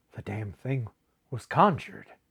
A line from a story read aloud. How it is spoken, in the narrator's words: muttered Buckner